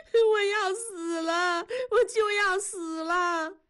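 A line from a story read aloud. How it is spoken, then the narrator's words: Crying. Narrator (Chinese): 燕妮哭着说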